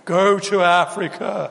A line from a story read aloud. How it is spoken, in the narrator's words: boomed from within the wardrobe